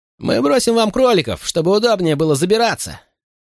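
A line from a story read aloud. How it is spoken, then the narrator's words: Higher-pitched tenor imitation. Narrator (Russian): произнести это более тонким голосом, похожим на тенор братьев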